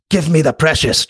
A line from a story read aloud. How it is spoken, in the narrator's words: Charles exclaimed